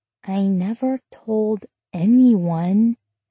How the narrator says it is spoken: Emma said in a baby voice

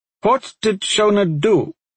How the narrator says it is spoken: the Uskar again said suddenly, her tone sharp, demanding a response

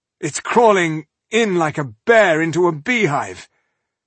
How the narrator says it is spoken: Balindar in pain and gasped

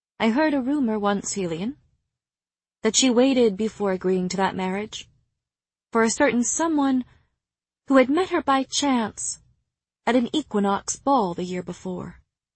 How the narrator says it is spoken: it was Moore who said coolly

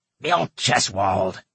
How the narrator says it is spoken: he said in a raspy voice

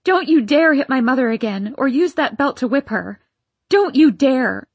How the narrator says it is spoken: trying to make my voice as powerful as his, I yelled

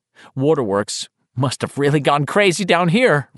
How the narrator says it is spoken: Richie said and laughed uneasily

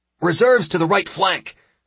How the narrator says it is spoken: I shouted out at full volume

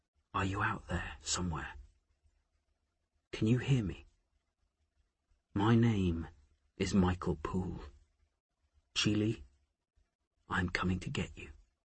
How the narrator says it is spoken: He whispered

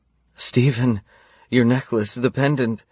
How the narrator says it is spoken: she gasped

